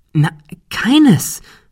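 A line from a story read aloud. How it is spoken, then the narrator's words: Excited. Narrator (German): erklärte Ben aufgeregt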